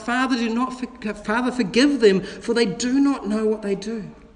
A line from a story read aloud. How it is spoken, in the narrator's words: our Savior Jesus Christ on the cross, who cried out